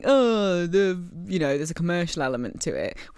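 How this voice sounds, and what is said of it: Imitates another person's voice. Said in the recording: “my impression of Jon Ola there talking about it”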